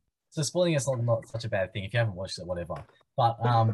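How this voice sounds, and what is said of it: Usual voice. Nothing is said of it.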